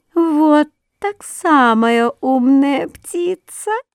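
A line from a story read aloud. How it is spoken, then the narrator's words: Thin little voice. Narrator (Russian): тоненький голосок сказал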